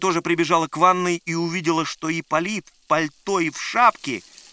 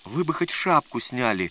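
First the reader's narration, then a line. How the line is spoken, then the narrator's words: Timid advice. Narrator (Russian): робко посоветовал Лукашин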